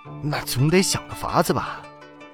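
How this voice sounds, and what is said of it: Worried, quiet whispered question. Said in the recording (Chinese): “沈世明有些担心了，小声问道。”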